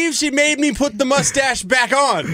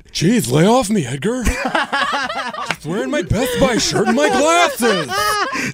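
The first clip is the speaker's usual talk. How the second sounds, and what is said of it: Impression of Kip from Napoleon Dynamite. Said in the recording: “a mix between a serial killer and Kip from Napoleon Dynamite ... You do a great Kip impersonation.”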